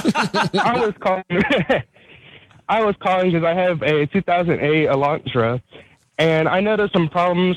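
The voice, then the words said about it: Out of breath while talking. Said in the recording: “sorry, I'm out of breath. I'm on my morning runner.”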